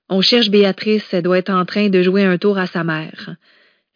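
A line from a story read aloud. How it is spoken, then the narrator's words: Calm, composed tone. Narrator (French): répondit Madeleine d'un ton posé pour éviter d'ajouter au sentiment de panique qu'elle sentait chez sa sœur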